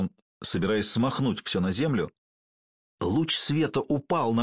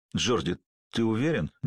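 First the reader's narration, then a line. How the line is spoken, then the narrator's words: Suddenly hoarse question. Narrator (Russian): невольно спросил Зуга внезапно охрипшим голосом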